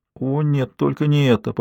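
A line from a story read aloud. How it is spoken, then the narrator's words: Pale, moaning in dismay. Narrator (Russian): побледнев, простонала Анника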